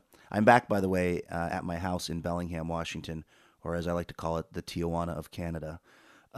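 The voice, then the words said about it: Sick, hoarse congested voice. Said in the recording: “Sorry about the voice. I am still battling some kind of upper respiratory / otolaryngological situation”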